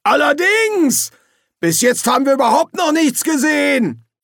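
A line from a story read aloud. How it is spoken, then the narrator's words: Shout from crowd. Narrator (German): Weiter vorne in der Menge rief jemand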